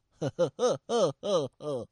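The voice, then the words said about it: Zhuge Liang's old-man opera laugh. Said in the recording (Chinese): “不能像老生啊。那诸葛亮笑 ... 都是这么笑啊”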